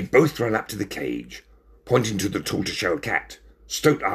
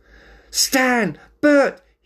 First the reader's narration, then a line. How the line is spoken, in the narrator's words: said excitedly